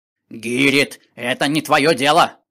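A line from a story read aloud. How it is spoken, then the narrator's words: Angry grumbling. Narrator (Russian): Злясь, ворчал кобальт с фонарем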